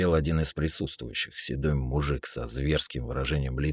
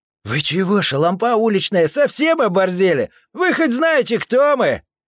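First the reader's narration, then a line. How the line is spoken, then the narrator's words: Shout. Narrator (Russian): Крикнул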